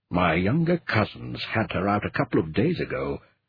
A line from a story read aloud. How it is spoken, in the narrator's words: He muttered under his breath